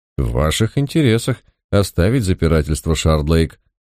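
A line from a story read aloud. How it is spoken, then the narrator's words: Calm, almost friendly. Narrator (Russian): Сэр Джейкоб говорил спокойно, почти доброжелательно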